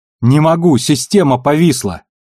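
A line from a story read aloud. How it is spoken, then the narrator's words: Shout. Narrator (Russian): выкрикнула учительница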